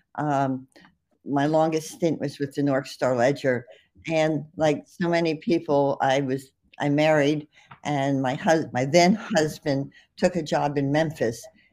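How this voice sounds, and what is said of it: New Jersey accent. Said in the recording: “you don't sound like you're from Mississippi ... that's my New Jersey accent”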